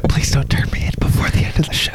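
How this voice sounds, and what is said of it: Whispering. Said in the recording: “good thing we're whispering. They can't hear us.”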